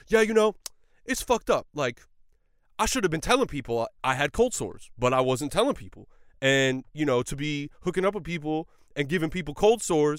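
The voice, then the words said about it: Imitates another person's voice. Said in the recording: “this is my Shia LaBeouf impression.”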